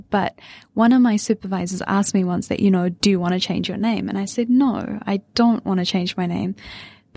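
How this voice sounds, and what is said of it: New Zealand accent. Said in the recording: “I have my natural Kiwi accent.”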